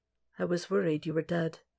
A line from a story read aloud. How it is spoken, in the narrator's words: says softly